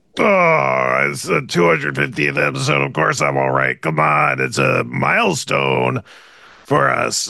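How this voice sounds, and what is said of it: Strained, unwell-sounding voice. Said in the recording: “My voice is killing me ... you don't sound that good today”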